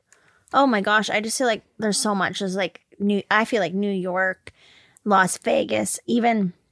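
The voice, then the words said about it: Raspy voice. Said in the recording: “My voice is really raspy”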